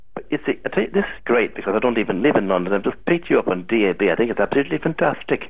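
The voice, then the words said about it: Manchester accent. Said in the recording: “Where are you calling from, Manchester? ... I guessed from the accent.”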